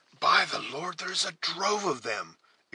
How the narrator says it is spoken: exclaimed the scout, whose eyes began to glisten with the ardor of his usual occupation

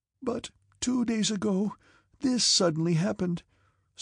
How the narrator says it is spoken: said Natasha, struggling with her sobs

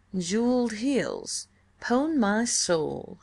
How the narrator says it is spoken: he drawled

